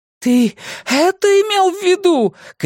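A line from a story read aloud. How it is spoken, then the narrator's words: Distant shout. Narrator (Russian): кричала Джеймс из какого-то темного и такого далекого убежища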